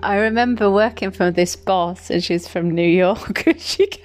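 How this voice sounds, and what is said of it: English Midlands accent. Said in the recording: “Where I'm from. So Midlands, babes. Midlands. Yeah, when I'm a little bit tipsy, my accent's really strong.”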